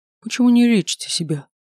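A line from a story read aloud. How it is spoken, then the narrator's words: Sad wry chuckle. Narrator (Russian): Она грустно усмехнулась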